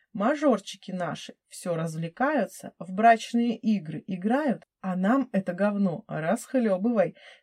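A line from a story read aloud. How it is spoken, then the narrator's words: Hostile, through gritted teeth. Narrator (Russian): С неприязнью в голосе процедил Леха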